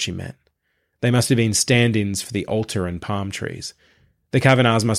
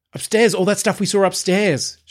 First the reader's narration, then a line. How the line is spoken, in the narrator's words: cried